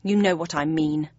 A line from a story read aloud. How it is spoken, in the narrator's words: growled